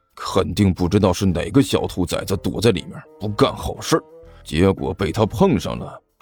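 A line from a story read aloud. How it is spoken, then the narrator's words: Glum low mutter. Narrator (Chinese): 徐主任郁闷的低声嘀咕了一句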